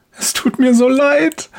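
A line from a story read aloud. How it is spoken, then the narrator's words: Woman sobbing. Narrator (German): schluchzt die Frau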